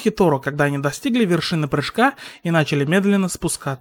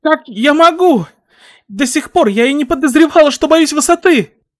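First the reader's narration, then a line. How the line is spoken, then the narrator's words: Frightened cry. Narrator (Russian): вскрикнула Хакагура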